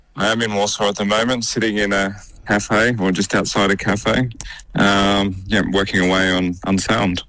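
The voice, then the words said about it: Australian accent. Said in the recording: “Aussie accent, of course”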